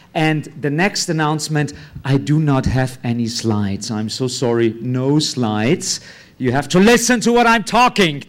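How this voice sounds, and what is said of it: Austrian-accented English. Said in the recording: “I have a strange accent. I'm from Austria, that's why the accent.”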